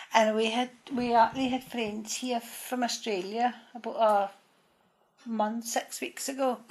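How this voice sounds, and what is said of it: Sing-song Acadian accent. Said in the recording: “Just typical Arcadian... the Arcadian accent and the Welsh accent is supposed to be quite similar... this sort of bit of a sing-song accent like what we have”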